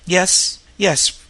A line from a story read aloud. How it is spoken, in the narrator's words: whispered Ruth Tolliver, smiling faintly